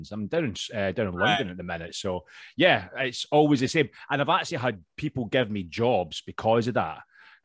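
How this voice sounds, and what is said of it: Scottish accent. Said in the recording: “He has an accent ... I'm actually obviously Scottish, as you can tell ... because of the accent ... oh, it's a Scottish guy”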